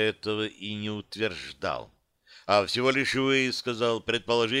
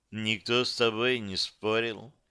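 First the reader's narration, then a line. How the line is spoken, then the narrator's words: Pointedly sad. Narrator (Russian): подчеркнуто грустно подметила Серафима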